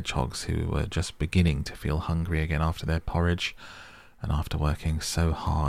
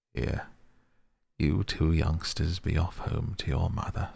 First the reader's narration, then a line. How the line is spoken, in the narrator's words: said the Badger kindly